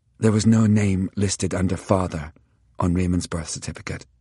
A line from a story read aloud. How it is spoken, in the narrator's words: Elizabeth said softly